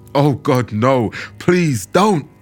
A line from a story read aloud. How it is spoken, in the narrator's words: a man shouting